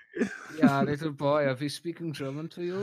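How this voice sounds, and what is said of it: Put-on German accent. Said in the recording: “You have a very specific German accent.”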